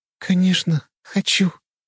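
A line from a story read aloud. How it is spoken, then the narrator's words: Quiet. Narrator (Russian): тихо проговорила она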